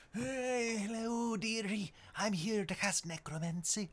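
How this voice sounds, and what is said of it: Old woman voice, Judi Dench. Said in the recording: “I can't play, like, an 80-year-old woman with ... You do Judi Dench perfectly.”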